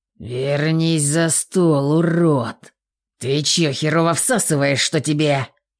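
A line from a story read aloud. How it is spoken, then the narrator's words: Aggressive growl, guard. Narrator (Russian): Не выдержав, агрессивно зарычал второй надзиратель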